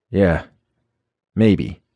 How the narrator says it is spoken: I managed to sputter

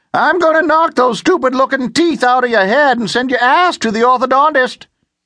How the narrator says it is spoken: Watkins charged with his cane and yelled

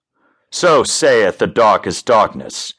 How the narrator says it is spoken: Drasanthe howled as the wolfman

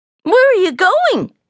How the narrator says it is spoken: Snubby inquired in a frightened voice

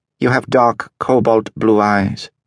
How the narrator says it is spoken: she said

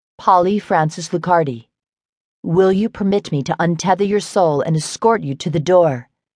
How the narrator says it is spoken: I asked

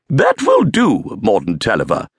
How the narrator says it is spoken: snapped Miss Vartexia

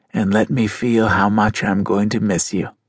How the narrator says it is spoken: whispered

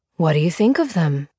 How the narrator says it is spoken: he asked, his voice even and pleasant

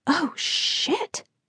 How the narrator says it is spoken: I whispered

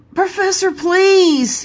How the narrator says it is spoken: begged, deep voice raised an octave

